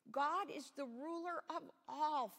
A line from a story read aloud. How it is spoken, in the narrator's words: Philip exclaimed